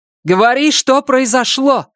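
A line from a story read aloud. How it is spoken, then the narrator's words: Loud interruption. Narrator (Russian): Громко перебила его Памела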